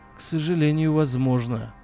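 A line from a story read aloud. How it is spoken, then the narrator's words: Weary. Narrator (Russian): устало произнес Вадим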